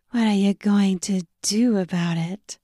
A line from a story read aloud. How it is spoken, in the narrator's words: She breathed